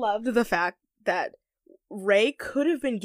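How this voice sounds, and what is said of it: Usual voice. Nothing is said of it.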